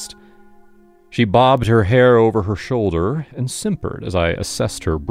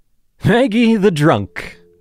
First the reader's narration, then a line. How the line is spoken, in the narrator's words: she blurted